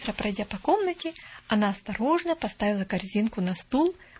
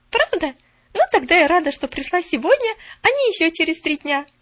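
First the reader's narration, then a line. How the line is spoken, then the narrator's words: Cheerful announcement. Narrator (Russian): весело объявила Поллианна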